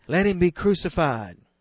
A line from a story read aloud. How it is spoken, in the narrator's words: they all cried